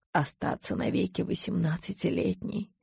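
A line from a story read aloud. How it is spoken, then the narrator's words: Whisper. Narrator (Russian): прошептал он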